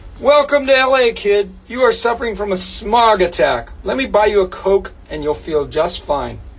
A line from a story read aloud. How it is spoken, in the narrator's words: He kind of chuckled and said